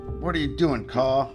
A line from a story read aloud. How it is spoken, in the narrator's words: He shouted